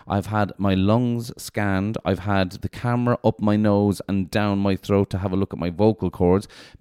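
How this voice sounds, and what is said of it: Hoarse, slightly nasal voice. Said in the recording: “I think you can hear my voice... I can hear it in my headphones... is it hoarse or nasally or something? I think it's a bit hoarse.”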